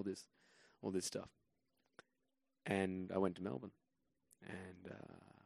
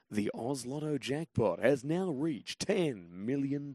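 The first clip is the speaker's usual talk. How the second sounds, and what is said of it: Lotto commercial announcer voice. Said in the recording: “I was the voice of the Oz Lotto commercials in Australia ... do the voice ... the voice of the lotto”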